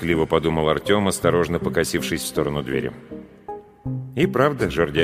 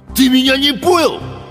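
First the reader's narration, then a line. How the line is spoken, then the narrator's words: Barked. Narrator (Russian): рявкнул Гусиныч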